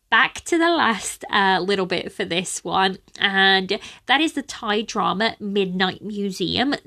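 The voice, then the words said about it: Sniffly, congested voice. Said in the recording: “my allergies are spiraling out of control ... I am sniffly ... my nose is just getting horrible right now ... my voice sounds even funnier now”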